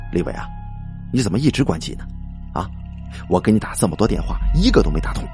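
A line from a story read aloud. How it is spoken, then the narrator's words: Hushed voice over phone. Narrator (Chinese): 他在听筒那边压低了声音，轻声说道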